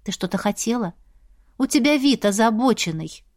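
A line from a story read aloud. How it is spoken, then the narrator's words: Gentle question. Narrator (Russian): мягко спросила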